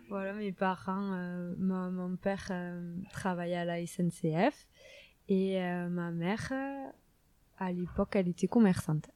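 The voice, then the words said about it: Strong southwest French accent. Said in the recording (French): “vous, entendez certainement mon gros accent, euh, dans le sud-ouest de la France”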